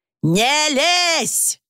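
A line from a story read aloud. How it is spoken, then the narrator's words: Shouted. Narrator (Russian): снова крикнул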